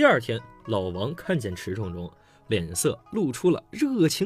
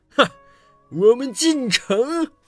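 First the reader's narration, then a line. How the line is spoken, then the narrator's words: Confident laugh. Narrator (Chinese): 胸有成竹，笑道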